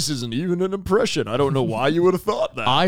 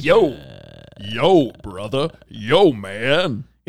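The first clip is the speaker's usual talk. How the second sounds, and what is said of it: Laid-back cool cartoon character voice. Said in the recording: “your vocal impersonation of Cool Spot. Very California Raisins-esque.”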